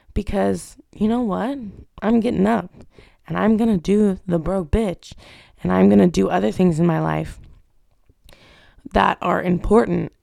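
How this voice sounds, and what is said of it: Hoarse, sick-sounding voice. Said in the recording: “my sick, hoarse voice”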